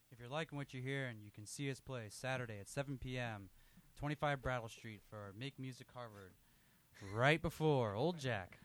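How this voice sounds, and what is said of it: Announcer-style radio voice. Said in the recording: “Is that your best radio voice? ... That's a pretty good radio voice. ... Swapping into radio mode there.”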